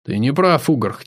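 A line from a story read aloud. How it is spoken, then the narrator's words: Quiet. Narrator (Russian): тихо сказал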